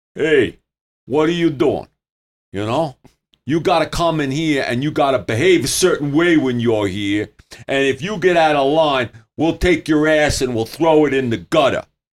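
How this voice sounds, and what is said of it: Gruff New York tough-guy impression. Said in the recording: “That was a good impression. ... Well, I grew up in New York.”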